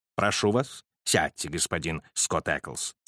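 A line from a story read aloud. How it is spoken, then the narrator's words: Soothing voice. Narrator (Russian): сказал Холмс успокаивающим голосом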